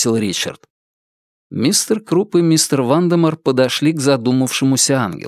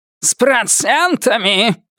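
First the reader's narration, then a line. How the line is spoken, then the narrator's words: Barked. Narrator (Russian): рявкнул мистер Круп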